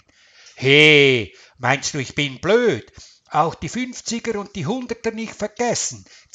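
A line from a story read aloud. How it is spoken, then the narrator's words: Hissed. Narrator (German): zischte Karl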